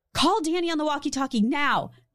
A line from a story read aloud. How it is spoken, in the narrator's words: Beth urgently called out